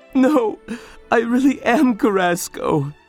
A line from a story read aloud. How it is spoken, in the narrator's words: sobbed the student